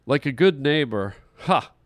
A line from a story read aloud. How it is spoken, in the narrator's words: he laughed to himself